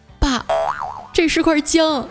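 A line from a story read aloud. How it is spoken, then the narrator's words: Near tears, choked voice. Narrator (Chinese): 眼泪都快下来了，带着哭腔说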